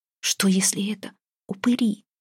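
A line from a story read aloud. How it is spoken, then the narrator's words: Barely audible, strained. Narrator (Russian): едва слышно выдавила Устинья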